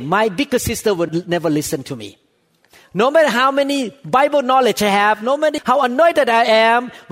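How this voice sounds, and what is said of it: Strong non-native English accent. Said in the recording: “they don't like my accent. They could not understand me very well. But thank God some of you tolerate with my accent.”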